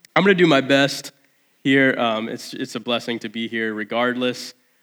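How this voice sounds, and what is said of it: Sick, strained voice. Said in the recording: “you can probably tell by my voice ... I'm just struggling today with some illness”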